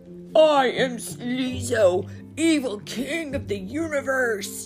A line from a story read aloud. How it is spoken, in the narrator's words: roared Brother